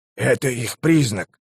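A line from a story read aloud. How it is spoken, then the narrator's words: Whisper. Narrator (Russian): прошептал мистер Хёкстер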